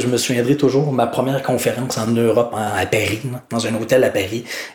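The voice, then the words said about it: Québécois French accent. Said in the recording (French): “j'ai jamais changé d'accent ... t'as as parlé pareil comme à Québec”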